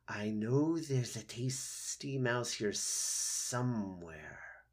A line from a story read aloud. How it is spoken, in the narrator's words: Snakes often hissed to themselves